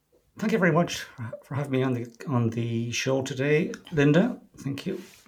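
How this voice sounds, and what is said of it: Soft, gentle Irish accent. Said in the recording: “a beautiful talking voice. It's very soft and very gentle... a beautiful Irish accent”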